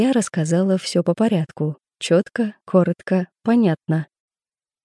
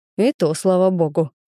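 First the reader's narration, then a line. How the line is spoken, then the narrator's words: Restrained growl. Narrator (Russian): сдержанно прорычал он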